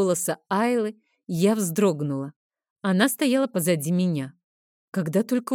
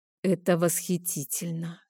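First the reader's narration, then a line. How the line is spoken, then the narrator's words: Awestruck whisper. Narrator (Russian): шепнула я, не в силах отвести взгляд от неземной красоты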